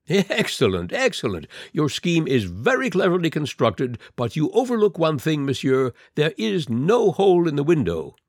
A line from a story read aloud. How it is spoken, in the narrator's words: The Count laughed and said